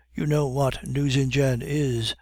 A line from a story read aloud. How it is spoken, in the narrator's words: said Bixiou